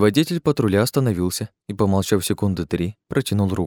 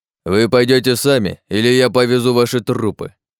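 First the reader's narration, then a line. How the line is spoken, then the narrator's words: Menacing growl. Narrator (Russian): прорычал патрульный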